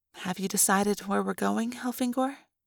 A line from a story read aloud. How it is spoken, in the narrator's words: Lauren asked gently